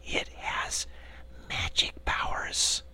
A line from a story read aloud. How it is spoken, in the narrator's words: she added, dropping her voice to an awed whisper